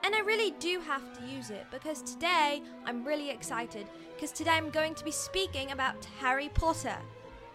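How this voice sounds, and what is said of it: Put-on British accent. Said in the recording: “I'm speaking in a British accent right now. And I don't know how very good it is”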